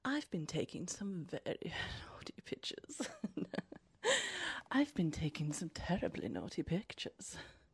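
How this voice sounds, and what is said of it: Put-on posh RP English accent. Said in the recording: “I can say that in a more RP English accent.”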